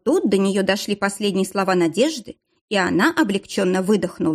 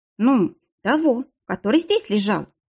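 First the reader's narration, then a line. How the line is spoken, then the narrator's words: Uncertain. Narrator (Russian): проговорила Надежда неуверенно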